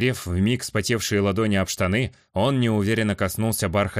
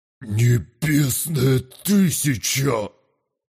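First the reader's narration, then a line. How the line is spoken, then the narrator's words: Admiring breathless exclamation. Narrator (Russian): Восхищенно выдохнул гигант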